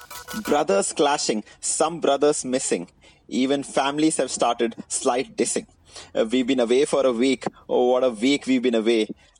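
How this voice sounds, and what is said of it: Indian accent. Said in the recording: “in an Indian accent”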